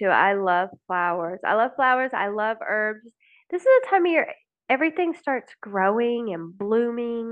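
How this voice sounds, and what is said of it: Slightly raspy voice. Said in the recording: “You guys can probably hear it in my voice, a little bit of raspiness.”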